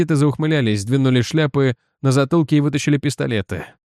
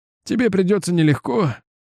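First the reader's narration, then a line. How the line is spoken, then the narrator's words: Sighing. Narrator (Russian): вздохнул Стеймец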